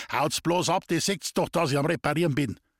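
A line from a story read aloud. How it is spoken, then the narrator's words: Small man angrily yelling. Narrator (German): Die Röte stieg dem kleinen Herrn Bär ins Gesicht und zornig schrie er die Leute an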